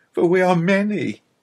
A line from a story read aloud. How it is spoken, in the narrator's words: he cried pathetically